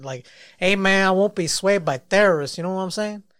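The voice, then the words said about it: Put-on Hispanic accent. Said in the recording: “I should say it in the Hispanic accent.”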